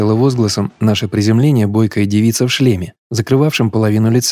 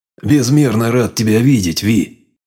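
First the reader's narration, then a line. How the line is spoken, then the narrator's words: Grumbling. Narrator (Russian): проворчал Саам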